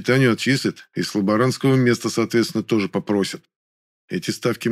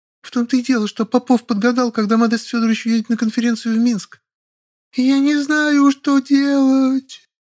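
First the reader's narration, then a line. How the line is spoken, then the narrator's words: Sobbing. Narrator (Russian): Всхлипнула Маша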